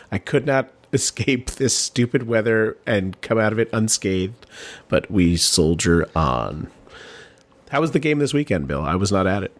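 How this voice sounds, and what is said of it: Voice sounds sick. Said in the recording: “you can hear in my voice that I'm coming down with something”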